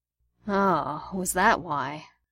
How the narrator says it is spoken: Gideon groaned

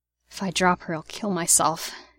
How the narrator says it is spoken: he muttered

